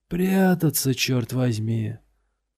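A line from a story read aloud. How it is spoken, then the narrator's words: Loud hoarse rasp. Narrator (Russian): прохрипел он достаточно громко, чтобы его слышал Лотерман и все прочие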